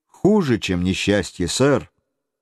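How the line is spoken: Calm reply. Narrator (Russian): взволнованного Гленарвана, он спокойно ответил

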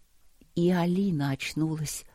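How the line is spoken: Quiet. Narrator (Russian): сказала она тихо

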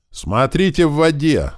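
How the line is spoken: Yelling. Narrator (Russian): заорал справа от меня упырь

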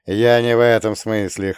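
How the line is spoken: Chuckling. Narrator (Russian): хохотнул я

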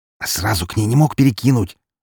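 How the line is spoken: Angry hiss. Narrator (Russian): зло прошипел я, пытаясь удержать остатки обеда в желудке

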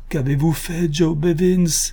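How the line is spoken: Exclaiming in gentle reproach. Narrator (French): s'écria-t-il d'un ton de doux reproche

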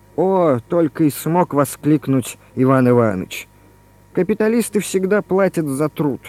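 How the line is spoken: Half-joking, through gritted teeth. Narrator (Russian): То ли в шутку, то ли всерьез процедил французский коммунист

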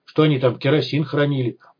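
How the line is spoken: Grumbled under breath. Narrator (Russian): буркнул себе под нос Вадим

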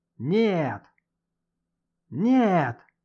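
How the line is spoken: Sudden yell. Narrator (Russian): заорал вдруг шеф

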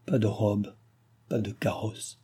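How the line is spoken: Dying woman murmuring. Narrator (French): murmurait la comtesse mourante

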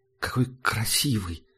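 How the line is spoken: Breathless. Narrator (Russian): выдохнула Герда

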